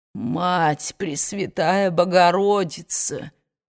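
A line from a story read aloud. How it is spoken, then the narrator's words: Parched moan. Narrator (Russian): простонал Джеральд, проводя сухим языком по запекшимся губам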